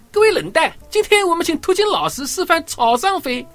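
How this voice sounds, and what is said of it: Flat voice, Jiangzhe Yangzhou accent. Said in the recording (Chinese): “他是个扁扁的声音，我就加了一点江浙扬州那边的口音”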